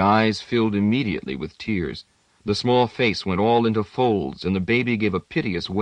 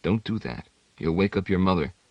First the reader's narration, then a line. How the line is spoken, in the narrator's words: Itale said in a low tone